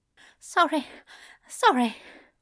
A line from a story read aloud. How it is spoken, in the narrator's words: Ezra said, his voice shaking